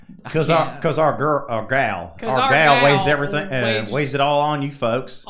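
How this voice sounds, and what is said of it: Put-on country accent. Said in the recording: “Say it with a country accent now.”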